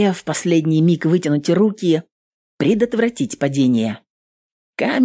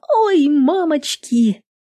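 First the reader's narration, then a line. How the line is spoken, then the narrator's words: Squeal. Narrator (Russian): Нютка взвизгнула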